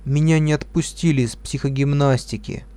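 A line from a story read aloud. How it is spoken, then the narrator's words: Sad, dull voice. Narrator (Russian): грустная и, заглянув на кухню, потухшим голосом сказала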